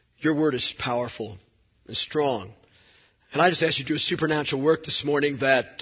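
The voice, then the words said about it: Weak, strained voice. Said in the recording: “my voice is weak”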